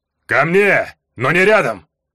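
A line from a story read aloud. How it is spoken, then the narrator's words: Barking command. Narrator (Russian): рявкнул Варга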